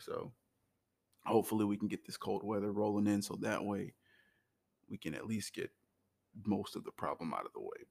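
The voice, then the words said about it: Low-energy, tired-sounding voice. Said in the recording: “You could probably hear it in my voice, but for some odd reason, my level of energy has spiked down in the opposite direction.”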